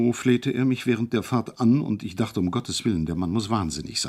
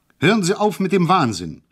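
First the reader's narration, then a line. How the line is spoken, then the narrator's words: Calling out. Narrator (German): rief ich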